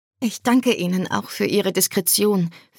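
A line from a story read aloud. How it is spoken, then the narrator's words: Quiet addition. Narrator (German): fügte leise hinzu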